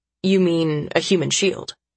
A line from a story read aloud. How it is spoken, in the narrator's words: Tyler says